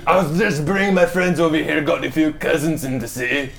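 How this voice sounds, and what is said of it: Put-on Scottish-sounding dwarf accent. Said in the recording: “That's not dwarven accent. ... she sounds Scottish. ... No, dwarven actually sounds Scottish. ... Viking.”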